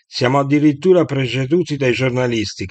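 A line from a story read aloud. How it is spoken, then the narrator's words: Shouting. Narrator (Italian): gridava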